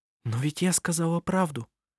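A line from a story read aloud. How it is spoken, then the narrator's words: Whispered reply. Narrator (Russian): прошептала в ответ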